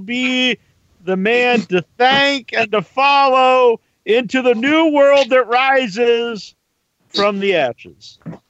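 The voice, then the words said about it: Dramatic Antichrist character voice. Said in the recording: “one of the greatest Antichrist impersonations I ever heard”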